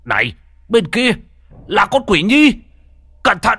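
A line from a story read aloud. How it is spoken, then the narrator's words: Alarmed loud shout. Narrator (Vietnamese): Bất giác trông thấy nguy hiểm, ông hét lớn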